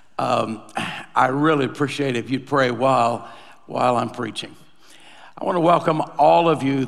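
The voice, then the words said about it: Hoarse, nearly lost voice. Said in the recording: “I lost my voice yesterday ... I woke up with not much of it working ... you get the last part of my voice”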